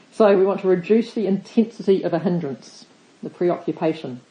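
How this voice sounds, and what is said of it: New Zealand accent. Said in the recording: “a Kiwi accent”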